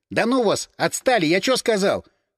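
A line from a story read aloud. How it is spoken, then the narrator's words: Stern bark, trembling voice. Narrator (Russian): По возможности строго рявкнул крыс, но голос его предательски дрогнул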